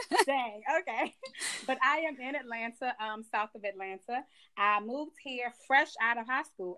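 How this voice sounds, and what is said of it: Slight Georgia Southern twang. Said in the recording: “I picked up this little Georgia twang ... I don't have just a little bit.”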